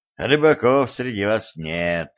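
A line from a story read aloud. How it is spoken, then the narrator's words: Snort. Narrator (Russian): хмыкнул стажар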